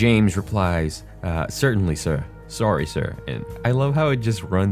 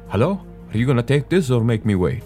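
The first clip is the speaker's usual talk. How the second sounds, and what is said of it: Poorly done put-on accent. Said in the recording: “That was a terrible accent”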